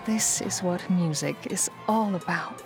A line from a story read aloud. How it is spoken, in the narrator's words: whispered Miss Crabapple to herself